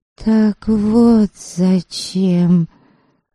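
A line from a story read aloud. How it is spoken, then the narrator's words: Young woman's murmur. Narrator (Russian): пробормотала краса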